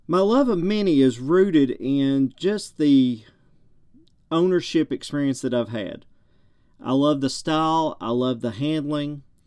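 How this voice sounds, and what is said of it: Thick southern American drawl. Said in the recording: “I have got a thick southern drawl.”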